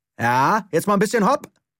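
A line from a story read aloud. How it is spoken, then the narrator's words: Boy calling after. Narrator (German): rief der Junge hinter ihm her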